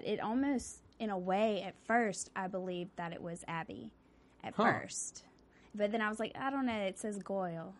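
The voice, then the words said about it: Southern American accent. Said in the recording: “in your southern accent”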